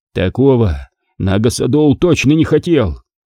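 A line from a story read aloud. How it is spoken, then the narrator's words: Hoarse wheeze. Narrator (Russian): прохрипел Равилан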